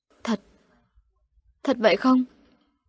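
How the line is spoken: Choked doubtful question. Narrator (Vietnamese): Nàng bán tín bán nghi, nghẹn ngào hỏi

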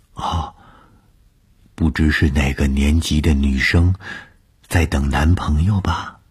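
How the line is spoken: Close whisper. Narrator (Chinese): 她凑在我的耳边低声地说

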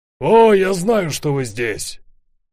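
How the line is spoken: Distant shout. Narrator (Russian): закричал издали

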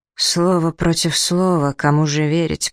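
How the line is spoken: Muttered under breath. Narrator (Russian): пробормотал себе под нос Брадок

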